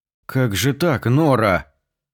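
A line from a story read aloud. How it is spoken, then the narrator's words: Hoarse, sunken voice. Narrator (Russian): осевшим голосом продолжал журналист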